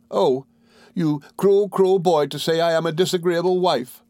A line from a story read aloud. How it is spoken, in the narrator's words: cried Dora